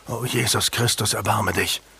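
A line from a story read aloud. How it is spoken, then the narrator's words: Gasping. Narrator (German): keuchte Julian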